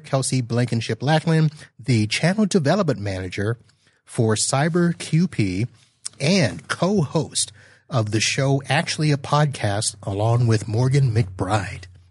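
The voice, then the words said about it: Announcer-style voice. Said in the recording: “announcer voice”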